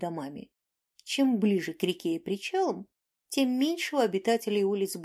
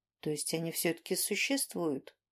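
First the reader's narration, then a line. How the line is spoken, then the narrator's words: Young man muttering. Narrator (Russian): пробормотал парень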